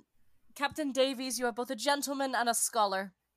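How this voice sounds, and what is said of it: Put-on accent that fades out. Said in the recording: “My accent died.”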